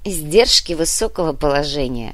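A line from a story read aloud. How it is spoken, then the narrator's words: Snorting. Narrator (Russian): хмыкнул Моня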